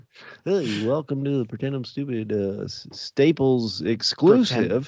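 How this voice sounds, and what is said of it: Radio announcer voice. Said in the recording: “That was my weird radio voice, which is actually better than my normal voice... It's pretty radio-y guy-ish.”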